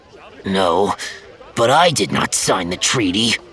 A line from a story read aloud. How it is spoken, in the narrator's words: Kelkad continued bitterly